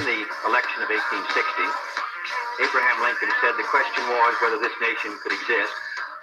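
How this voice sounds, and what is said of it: Eastern European accent. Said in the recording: “She definitely has like some kind of like Eastern European accent.”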